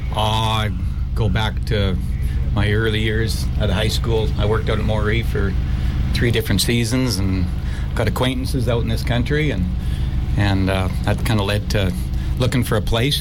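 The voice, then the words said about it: Canadian accent. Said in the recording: “You guys are from Canada, obviously with the accent.”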